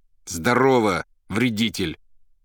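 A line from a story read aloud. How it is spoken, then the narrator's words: Loud and angry. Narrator (Russian): Злобно и громко ответил Иван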